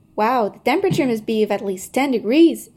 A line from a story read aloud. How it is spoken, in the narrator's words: exclaimed Hazel